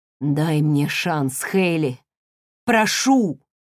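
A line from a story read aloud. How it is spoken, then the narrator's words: Hoarse voice. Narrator (Russian): хриплым голосом произнес Уилл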